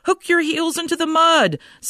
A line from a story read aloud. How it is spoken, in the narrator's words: called out helpfully